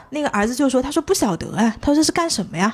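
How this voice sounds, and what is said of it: Imitated heavy Nanchang accent. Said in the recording (Chinese): “南昌口音是一听就能听出来的 ... 你这个口音是有点重的吧 ... 哎哎，有点感觉的，有点感觉。”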